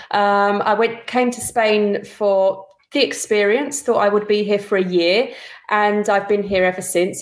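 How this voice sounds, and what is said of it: English London accent. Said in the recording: “with that English accent ... I, am a, a, Londoner”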